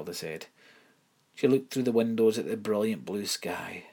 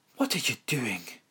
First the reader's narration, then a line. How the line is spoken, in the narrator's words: Miss Winsome gasped